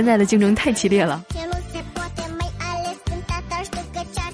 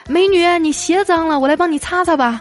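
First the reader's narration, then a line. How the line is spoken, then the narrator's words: Calling out. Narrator (Chinese): 追着美女喊道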